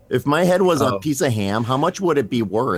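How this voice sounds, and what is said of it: Kids in the Hall character voice. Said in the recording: “You did the ham head voice thing very well, though. ... That's pretty good.”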